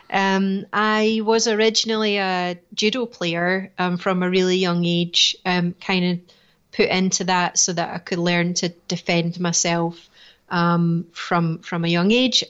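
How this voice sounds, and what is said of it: Scottish Edinburgh accent. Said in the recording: “I was born and bred in Edinburgh, so it's a Scottish accent you're listening to”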